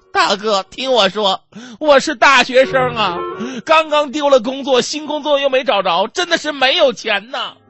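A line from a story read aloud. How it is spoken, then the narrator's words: Frightened, sobbing plea. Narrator (Chinese): 女孩特别害怕啊，跟劫匪哭诉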